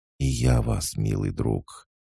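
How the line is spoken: Whispered. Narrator (Russian): Она прошептала

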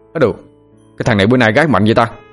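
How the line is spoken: Surprised loud exclamation. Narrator (Vietnamese): Anh Thông la lên

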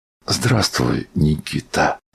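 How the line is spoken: Soft. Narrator (Russian): сказал мягко Андрей Ефимыч

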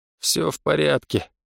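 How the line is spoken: Weary reply. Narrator (Russian): устало отозвался Гонсарет

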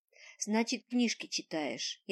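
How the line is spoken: Sighing. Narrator (Russian): я вздохнула

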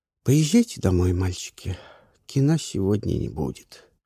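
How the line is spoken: Tired. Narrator (Russian): устало сказала

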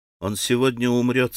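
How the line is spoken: Plain. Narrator (Russian): сказал Алёша

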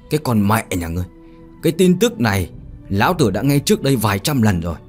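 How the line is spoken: Loud angry shout. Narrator (Vietnamese): Đại hán dùng lực vỗ mạnh lên mặt bàn, hét lớn

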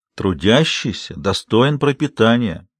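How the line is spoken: Gentle instructive tone. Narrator (Russian): назидательно, но мягко указал Большой Джим

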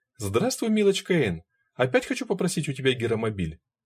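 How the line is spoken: Cheerful. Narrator (Russian): Роз весело сказала

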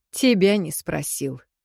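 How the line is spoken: Dismissive scoff. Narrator (Russian): хмыкнул Кирино на что-то

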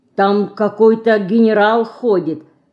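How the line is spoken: Plain. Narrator (Russian): сказала Динка

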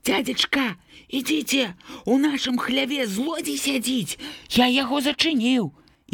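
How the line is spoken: Muffled, agitated boy's voice. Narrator (Belarusian): Андрэйка прыдушаным, усхваляваным голасам загаварыў

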